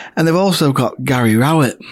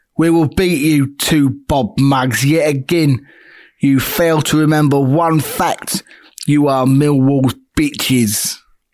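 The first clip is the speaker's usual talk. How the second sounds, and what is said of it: Put-on Millwall London accent. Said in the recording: “I'm going to try and do a Millwall accent now... Football Factory Green Street thing”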